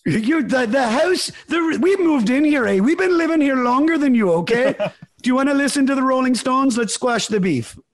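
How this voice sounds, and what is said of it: Mediocre put-on Canadian accent, somewhat Irish. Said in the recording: “My Canadian accent's not very good. It's not terrible... It sounds a little Irish”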